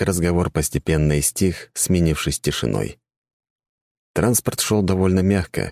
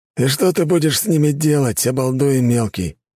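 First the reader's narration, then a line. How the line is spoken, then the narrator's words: Sighing. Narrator (Russian): вздохнул Федор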